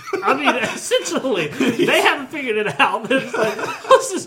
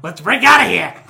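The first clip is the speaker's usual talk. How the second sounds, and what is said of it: Imitates another person's voice. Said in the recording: “I want to hear Danny ... Everyone's going to think that's a bad impression ... It's a garbage impression.”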